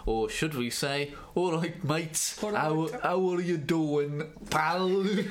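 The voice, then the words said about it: Put-on Dudley West Midlands accent. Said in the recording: “I think that's how people from Dudley speak ... I was going to attempt to do an accent, but I think you've got it spot on.”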